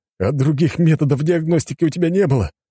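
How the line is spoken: Moaning, heir. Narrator (Russian): простонал наследник престола

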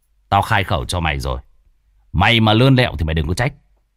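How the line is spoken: Stern. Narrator (Vietnamese): cậu nghiêm giọng nói

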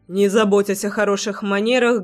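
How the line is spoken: Rough. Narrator (Russian): грубо произнес

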